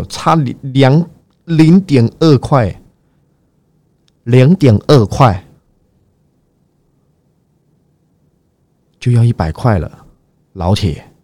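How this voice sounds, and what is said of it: Imitated mainland Chinese accent. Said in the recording (Chinese): “最近很喜欢模仿中国口音”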